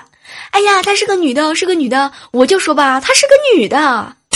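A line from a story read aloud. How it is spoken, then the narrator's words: Excited shouting while running. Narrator (Chinese): 他一边跑一边兴奋的大声喊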